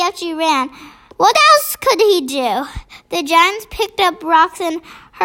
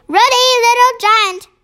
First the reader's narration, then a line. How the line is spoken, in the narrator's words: they shouted